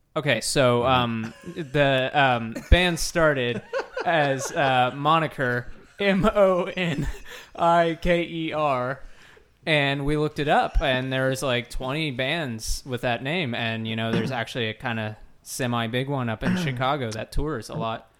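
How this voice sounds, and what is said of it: Imitates another person's voice. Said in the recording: “Do your best impression of me ... you do a really good impression”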